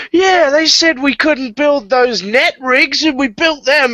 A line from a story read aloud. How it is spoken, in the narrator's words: One of the other workers, someone under Jayco, shouts out